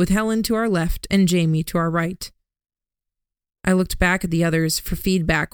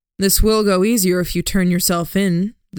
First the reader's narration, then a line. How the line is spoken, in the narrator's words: the Duke said